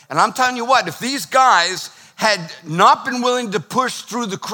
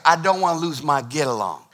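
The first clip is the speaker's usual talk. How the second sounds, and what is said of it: Put-on Southern US accent. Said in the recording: “You got to say it with a southern accent.”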